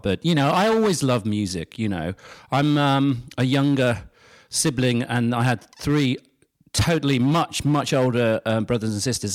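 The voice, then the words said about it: British accent. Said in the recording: “I'm a Brit, obviously, got the accent”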